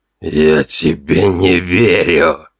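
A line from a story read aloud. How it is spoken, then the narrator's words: Hissed. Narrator (Russian): прошипел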